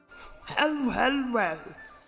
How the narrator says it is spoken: said, chuckling

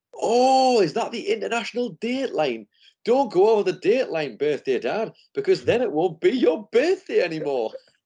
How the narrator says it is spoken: he shouts back through to the room

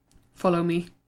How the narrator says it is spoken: muttered Pete

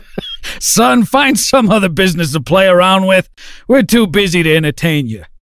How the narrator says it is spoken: the boss cackled gruffly

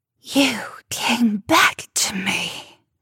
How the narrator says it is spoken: she hissed

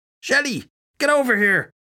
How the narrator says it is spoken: shout in surprise

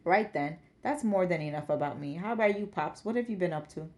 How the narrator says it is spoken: Hubert chuckled

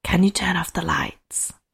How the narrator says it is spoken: whispered again

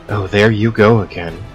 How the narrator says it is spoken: Jules said

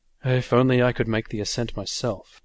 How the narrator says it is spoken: he sighed

